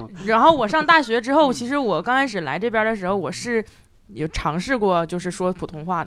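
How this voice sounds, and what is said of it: Northeastern Chinese accent. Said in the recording (Chinese): “大家都说我是说的是东北话 ... 东北口音”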